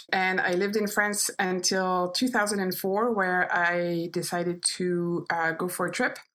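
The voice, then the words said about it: French accent. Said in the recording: “I'm actually French. This is why I have this accent. Most people think I'm German, but no, I am French.”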